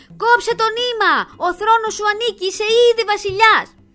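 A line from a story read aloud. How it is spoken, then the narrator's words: Impatient crowd shouting. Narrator (Greek): οι πιο ανυπόμονοι θεατές ξεσηκώνονται και του φωνάζουν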